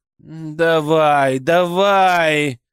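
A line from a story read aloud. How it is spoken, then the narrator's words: Angry, hurt growl. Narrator (Russian): Хамелеон то ли со злостью, то ли с обидой прорычал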